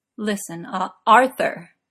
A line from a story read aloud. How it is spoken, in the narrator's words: Arthur said firmly